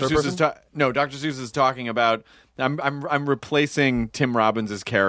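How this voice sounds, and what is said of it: Usual voice. Nothing is said of it.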